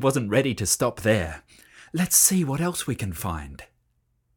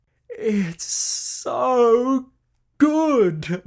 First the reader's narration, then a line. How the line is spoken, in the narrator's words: moaned Sam at last, as they rolled onto their backs in bliss